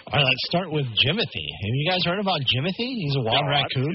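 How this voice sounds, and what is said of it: Pittsburgh Yinzer accent. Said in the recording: “You can hear it in my Yinzer accent that it sometimes comes out more than other times”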